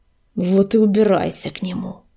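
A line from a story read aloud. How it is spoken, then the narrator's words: Hiss. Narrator (Russian): прошипел Огнезвезд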